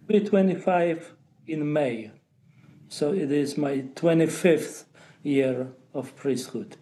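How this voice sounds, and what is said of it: Polish accent. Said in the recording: “A priest with Polish accent because he was born in Poland.”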